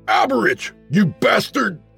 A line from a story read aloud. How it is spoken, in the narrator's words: I shouted